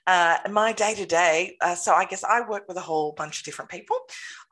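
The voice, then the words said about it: Australian accent. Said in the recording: “I'm here in Australia, as you may have picked up from the accent.”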